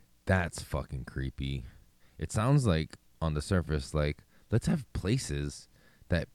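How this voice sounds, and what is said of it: Usual voice. Nothing is said of it.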